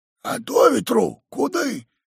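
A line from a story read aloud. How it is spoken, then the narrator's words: Old man's whisper. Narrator (Russian): шепнул дегустатову старик Ерема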